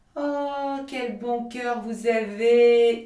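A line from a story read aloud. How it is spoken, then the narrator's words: Wife shouting. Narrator (French): lui cria sa femme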